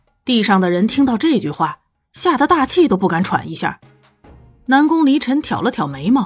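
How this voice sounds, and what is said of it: Usual voice. Nothing is said of it.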